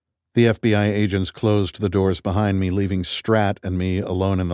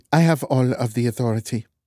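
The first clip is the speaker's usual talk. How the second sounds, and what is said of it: Dutch accent. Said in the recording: “You have an accent. ... I'm Dutch.”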